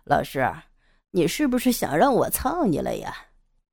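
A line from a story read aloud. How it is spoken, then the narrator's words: Laughing. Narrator (Chinese): 杨野笑着说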